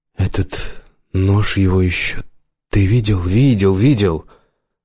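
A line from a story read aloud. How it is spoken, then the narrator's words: Grumbled mutter. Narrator (Russian): Буркнул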